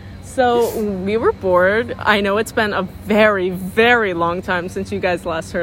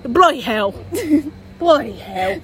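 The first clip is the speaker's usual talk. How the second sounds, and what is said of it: Imitated British accent. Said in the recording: “in his British accent ... He's British.”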